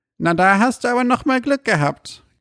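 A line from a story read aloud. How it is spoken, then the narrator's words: Croaking voice from side. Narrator (German): krächzte ihm eine Stimme von der Seite zu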